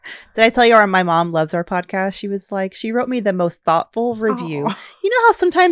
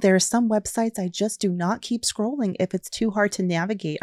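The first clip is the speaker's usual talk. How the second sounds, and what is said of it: Midwestern Minnesota accent impression. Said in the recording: “I'm doing it in her Midwestern. ... Oh, I love accent. That. Minnesota.”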